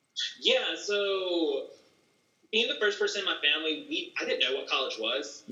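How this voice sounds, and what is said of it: Rural Southern US accent. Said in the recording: “living in the country, have the accent and all. Everyone thinks I'm from like Alabama. ... My accent. ... I'm just from North Carolina”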